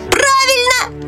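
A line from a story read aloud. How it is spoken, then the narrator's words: Shouting. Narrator (Russian): закричал Фриц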